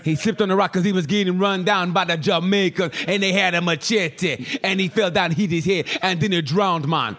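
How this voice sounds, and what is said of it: Poor put-on Jamaican accent. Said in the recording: “This is the worst Jamaican accent.”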